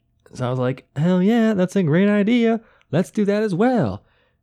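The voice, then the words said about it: Imitates another person's voice. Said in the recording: “my NZ Ansari impression.”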